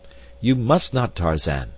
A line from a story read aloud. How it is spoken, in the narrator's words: cried D'Arnot